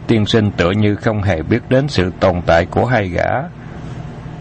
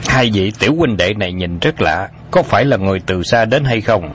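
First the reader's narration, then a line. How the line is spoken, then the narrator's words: Big man's cold question. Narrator (Vietnamese): Một gã đại hán lạnh lùng hỏi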